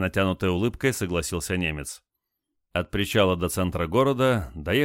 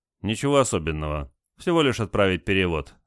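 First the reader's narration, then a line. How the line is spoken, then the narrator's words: Calm answer. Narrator (Russian): спокойно ответил Олег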